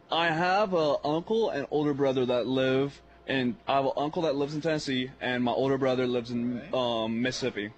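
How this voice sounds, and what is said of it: Country-sounding accent. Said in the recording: “you have that accent for it. Has anybody told you you sound like a country guy?”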